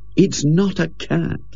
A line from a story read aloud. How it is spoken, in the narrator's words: said Ginger wearily